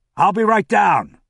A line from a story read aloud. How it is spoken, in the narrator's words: he called out